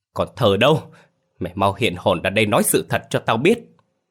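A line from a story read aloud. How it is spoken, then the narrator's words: Shouting. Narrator (Vietnamese): hét lớn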